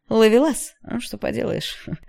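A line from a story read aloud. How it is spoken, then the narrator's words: Laughing. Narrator (Russian): рассмеялся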